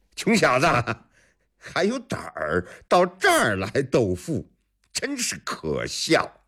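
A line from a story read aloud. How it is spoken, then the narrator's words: Loud laughter. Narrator (Chinese): 那富家公子一阵大笑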